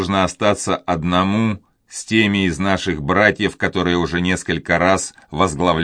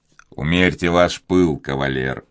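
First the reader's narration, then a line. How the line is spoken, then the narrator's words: Cold interruption. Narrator (Russian): холодно перебил его Филипп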